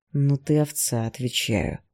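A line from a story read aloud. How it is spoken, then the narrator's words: Growl. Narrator (Russian): прорычал Игнат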